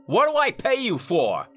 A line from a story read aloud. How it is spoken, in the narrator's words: Carver snapped